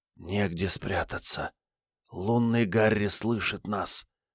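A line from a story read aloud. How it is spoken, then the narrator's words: Whisper. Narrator (Russian): прошептал он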